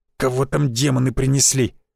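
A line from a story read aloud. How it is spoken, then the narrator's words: Hiss. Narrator (Russian): прошипел Авдеев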